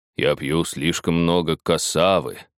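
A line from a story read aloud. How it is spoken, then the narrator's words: Mumbling. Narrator (Russian): пробурчал вождь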